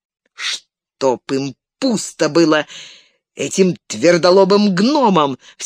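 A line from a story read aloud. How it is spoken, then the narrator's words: Exasperated exclamation. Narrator (Russian): в сердцах воскликнул Леголас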